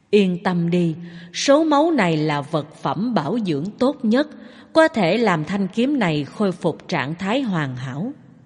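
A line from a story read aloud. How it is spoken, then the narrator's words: Soft laugh. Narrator (Vietnamese): Phạn Dạ La cười khẽ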